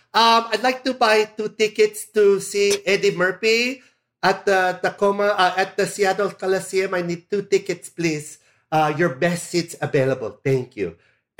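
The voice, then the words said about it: Put-on Filipino accent. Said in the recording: “when you use a Filipino accent, they don't question you”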